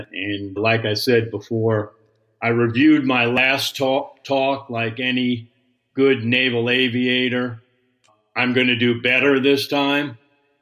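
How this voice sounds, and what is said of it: New York accent. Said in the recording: “I can't get rid of my New York accent”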